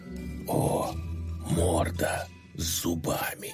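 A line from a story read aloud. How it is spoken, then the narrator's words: Whisper. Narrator (Russian): Шепнул первый пень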